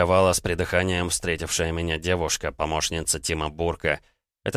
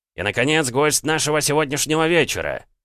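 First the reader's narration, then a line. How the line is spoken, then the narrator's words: Yelling. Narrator (Russian): заорал Тим Бурк, скандальный ведущий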